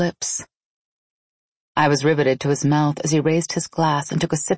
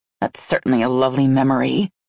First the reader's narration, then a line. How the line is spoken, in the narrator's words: I said with a grunt of disgust